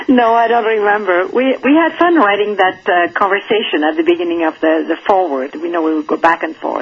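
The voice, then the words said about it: Speaks English with an accent. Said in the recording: “I'm seduced by ... accent ... nobody can hear my accent”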